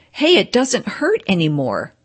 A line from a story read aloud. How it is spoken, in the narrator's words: cried the man